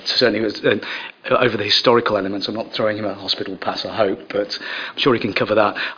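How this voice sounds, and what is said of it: Strained, failing voice. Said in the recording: “I'm afraid my voice is going a little bit”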